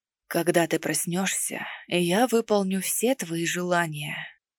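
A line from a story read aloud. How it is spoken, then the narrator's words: Intimate close whisper. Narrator (Russian): прошептал, задевая своими губами мою щеку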